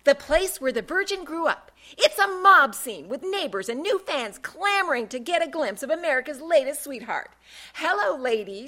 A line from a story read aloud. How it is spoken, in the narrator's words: she boomed